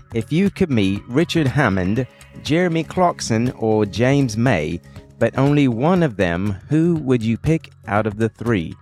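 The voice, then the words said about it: Attempted British accent. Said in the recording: “That's my attempt at a British accent.”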